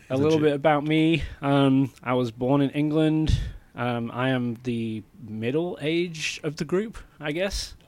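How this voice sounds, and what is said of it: British accent. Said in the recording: “British ... I am a legit Brit”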